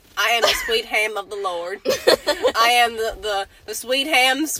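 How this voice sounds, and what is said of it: Put-on Southern US accent. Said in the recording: “another Southern accent”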